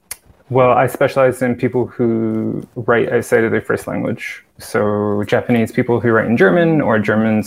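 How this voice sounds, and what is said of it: Mixed accent, hard to place. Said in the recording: “You've got a right accent, haven't you? It's quite sort of in between everything.”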